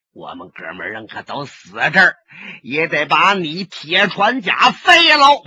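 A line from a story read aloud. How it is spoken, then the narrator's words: Through gritted teeth. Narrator (Chinese): 咬牙切齿的说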